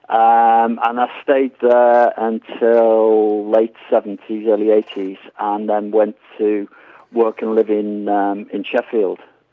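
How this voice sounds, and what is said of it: Northern English accent, Yorkshire twang. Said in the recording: “You certainly haven't lost your accent... a bit of a Yorkshire twang”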